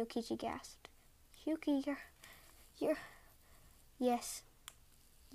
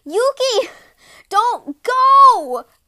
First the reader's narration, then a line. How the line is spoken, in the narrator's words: cried Minokichi, running after her